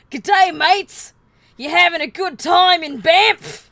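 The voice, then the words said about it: Loud, aggressive Australian accent. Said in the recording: “an aggressively Australian man screamed... Beautiful accent.”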